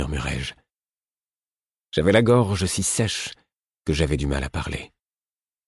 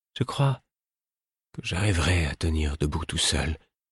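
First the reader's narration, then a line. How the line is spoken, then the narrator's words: Weak voice. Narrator (French): dit-il d'une voix faible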